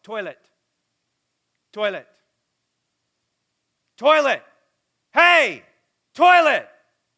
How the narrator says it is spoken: yell

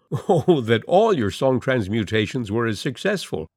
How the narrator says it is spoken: she laughed

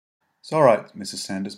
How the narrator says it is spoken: Mary said

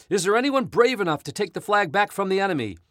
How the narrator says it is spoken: the captain cried out

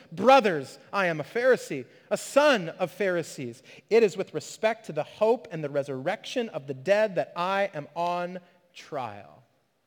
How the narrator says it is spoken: Paul perceived that one part were Sadducees and the other Pharisees, he cried out in the council

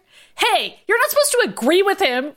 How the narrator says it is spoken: Ryan shouted

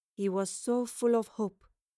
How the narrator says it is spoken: the older Lorelei murmured

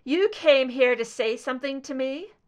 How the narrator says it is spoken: Scully asked, her voice strong for the first time in 2 hours

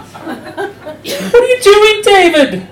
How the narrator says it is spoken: screamed

